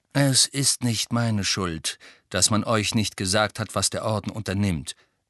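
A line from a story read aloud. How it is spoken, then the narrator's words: Calm explanation. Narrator (German): erklärte Sirius ruhig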